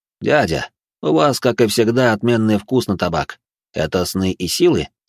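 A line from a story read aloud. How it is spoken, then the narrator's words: Plain. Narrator (Russian): спросил он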